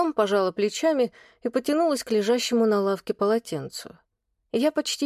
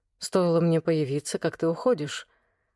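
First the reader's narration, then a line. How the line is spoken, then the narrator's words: Sad reply. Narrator (Russian): грустно отозвался Влад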